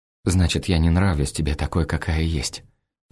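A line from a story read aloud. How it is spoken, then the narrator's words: Quiet. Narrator (Russian): произносит она тихо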